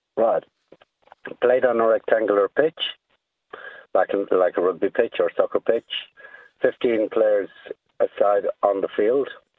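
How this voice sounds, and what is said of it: Irish accent. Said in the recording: “I love to hear the Irish accent”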